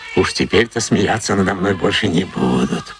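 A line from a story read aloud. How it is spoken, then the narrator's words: Whispered. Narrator (Russian): прошептал монах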